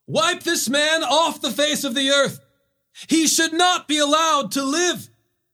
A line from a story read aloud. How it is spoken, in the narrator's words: they raised their voices, shouting